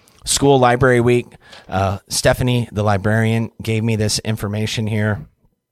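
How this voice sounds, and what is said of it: Hoarse, fading voice. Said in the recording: “apologize for my voice. I think I'm losing my voice a little bit”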